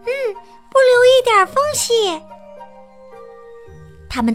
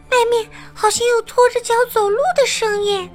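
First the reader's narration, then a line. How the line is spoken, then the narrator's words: Quiet voice. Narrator (Chinese): 米莉小声说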